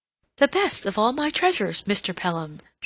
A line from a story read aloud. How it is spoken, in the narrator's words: she exclaimed